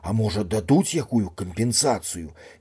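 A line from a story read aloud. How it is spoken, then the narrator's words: Timid question. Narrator (Belarusian): нясмела перапытаў Гасюта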